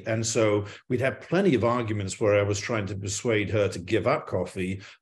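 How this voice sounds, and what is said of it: English accent. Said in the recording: “as you can probably tell by my accent, I'm English”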